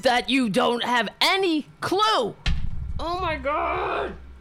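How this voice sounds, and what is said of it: Screaming angrily. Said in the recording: “I'm screaming.”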